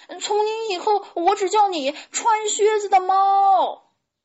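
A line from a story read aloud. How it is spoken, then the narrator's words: Regretful shout. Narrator (Chinese): 小胖墩儿后悔的在后面喊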